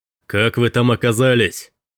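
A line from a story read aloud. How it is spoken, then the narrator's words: Deep-voiced shout. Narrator (Russian): прокричал мужчина с глубоким голосом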